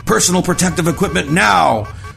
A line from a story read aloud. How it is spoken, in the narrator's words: Zimmerman shouted over the alarms